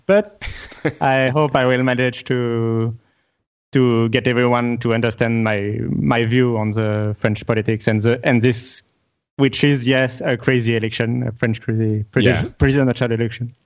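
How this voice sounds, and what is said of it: Strong French accent. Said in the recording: “I'm really French, so I have a shitty French accent.”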